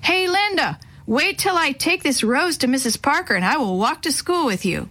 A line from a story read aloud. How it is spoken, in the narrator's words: Instead, he yelled across the street